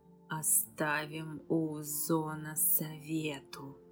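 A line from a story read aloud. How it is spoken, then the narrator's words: Hissing dragon voice inside head. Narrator (Russian): прошипела драконья тень в голове Эзиреста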